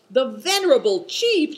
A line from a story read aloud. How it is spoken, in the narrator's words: shouted Good Fortune indignantly